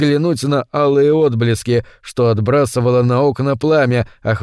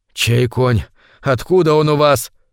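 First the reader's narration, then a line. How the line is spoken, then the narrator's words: Young man, hoarse, heated question. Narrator (Russian): хрипло, запальчиво спросил юноша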